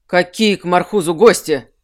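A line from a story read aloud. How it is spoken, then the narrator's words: Irritated question. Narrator (Russian): Спросил он раздраженно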